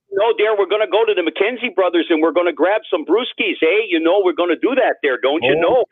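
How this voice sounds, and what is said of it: Put-on Canadian accent. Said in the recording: “The Canadian accent came out a little bit?”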